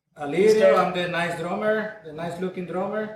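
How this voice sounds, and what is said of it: Latino accent. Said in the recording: “he's got a weird accent ... Latino. A couple accents there. ... Latino accent”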